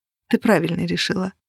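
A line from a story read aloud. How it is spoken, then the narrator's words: Whispered. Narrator (Russian): Аннет шепнула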